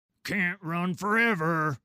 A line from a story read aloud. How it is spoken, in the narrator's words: he bellows after me